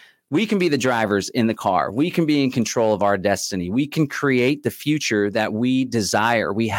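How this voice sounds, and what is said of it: Usual voice. Nothing is said of it.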